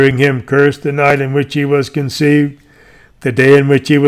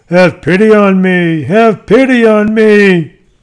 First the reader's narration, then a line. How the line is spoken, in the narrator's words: hearing him wailing out